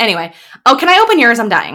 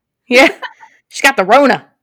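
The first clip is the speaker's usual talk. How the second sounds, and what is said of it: Says a phrase in a put-on accent. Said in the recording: “I don't know why I give it that accent.”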